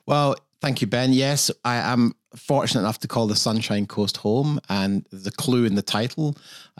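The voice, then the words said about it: Non-Australian accent. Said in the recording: “despite your accent, which is clearly not Australian”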